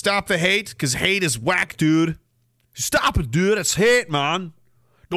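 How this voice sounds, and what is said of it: Attempted Saskatchewan guy accent. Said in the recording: “I've almost got a weird Saskatchewan guy accent. They're hard, they're a hard one to do”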